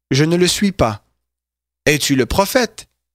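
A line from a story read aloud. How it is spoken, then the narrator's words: Plain reply. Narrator (French): il répondit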